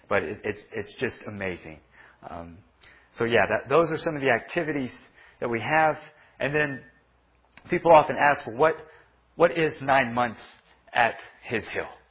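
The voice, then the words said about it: Slightly hoarse voice. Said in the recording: “my voice is a little bit hoarse ... screaming all the time, singing the songs”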